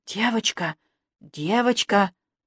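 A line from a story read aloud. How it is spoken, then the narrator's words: Stifled whisper. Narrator (Russian): придушенный шепот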